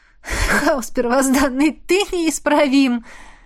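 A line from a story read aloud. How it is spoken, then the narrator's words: Laughing. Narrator (Russian): рассмеялась я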